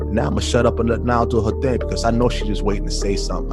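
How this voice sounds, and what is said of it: New York accent. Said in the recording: “I just like the way you talk. ... I just like to hear the New York accent.”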